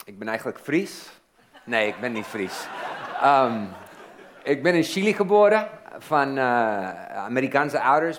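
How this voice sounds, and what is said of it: Foreign accent speaking Dutch. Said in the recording (Dutch): “Jullie merken dat ik een accent heb”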